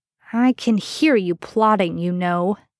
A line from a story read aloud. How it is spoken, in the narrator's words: Sam grunted from the kitchen